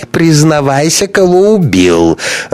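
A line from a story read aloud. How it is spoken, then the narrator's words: Tipsy laughter. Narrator (Russian): рассмеялся захмелевший Ковалев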